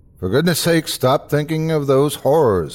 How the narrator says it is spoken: called out

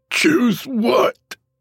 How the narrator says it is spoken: Toby, trying desperately to release the grip from the hand at his throat, croaked out

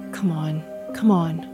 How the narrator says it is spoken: I whispered

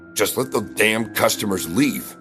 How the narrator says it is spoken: grumbled

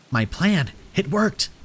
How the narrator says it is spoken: Trinity exclaimed

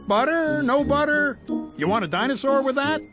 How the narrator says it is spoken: the popcorn man shouting

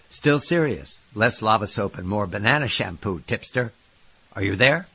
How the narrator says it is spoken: I grunted again

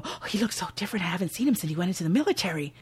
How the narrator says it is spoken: Maddie hurriedly whispers to Hugo

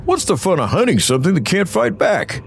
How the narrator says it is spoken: Hank asked cheerfully

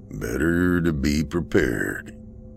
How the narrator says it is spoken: he mumbled to himself

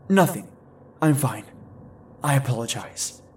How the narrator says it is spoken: I choked out

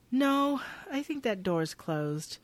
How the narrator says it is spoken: Maya sadly says

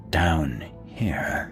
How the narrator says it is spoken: the only phrase I could discern from the two whispered sounds

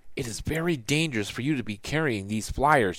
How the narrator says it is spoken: she said under her breath

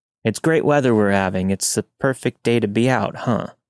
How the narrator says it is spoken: he said

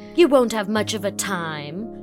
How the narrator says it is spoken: said Phil scornfully

